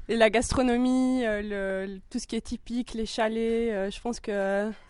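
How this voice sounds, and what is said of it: Regional Swiss French accent. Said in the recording (French): “votre bel accent”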